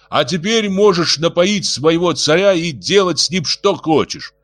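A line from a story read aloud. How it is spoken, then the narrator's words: Loud. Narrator (Russian): громко добавил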